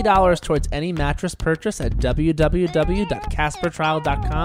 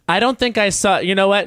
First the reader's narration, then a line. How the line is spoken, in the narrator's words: She laughs, she's but laughing